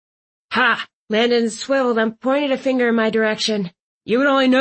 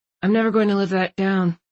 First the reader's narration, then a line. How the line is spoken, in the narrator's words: Landon muttered